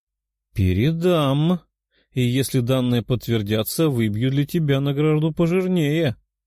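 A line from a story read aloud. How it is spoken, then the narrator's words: Purring. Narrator (Russian): промурлыкала она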